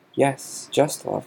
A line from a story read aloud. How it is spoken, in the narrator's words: said Dumbledore